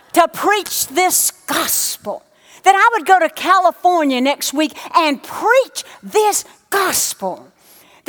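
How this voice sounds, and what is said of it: Speaks with a noticeable foreign accent. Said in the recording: “people who have a funny accent like you”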